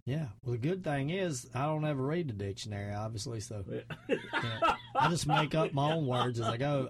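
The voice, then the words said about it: Strong Southern US accent. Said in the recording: “my Southern accent. I'd rather have a strong Southern accent.”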